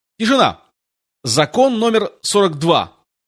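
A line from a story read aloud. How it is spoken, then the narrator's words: Loud reading. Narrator (Russian): громко прочел он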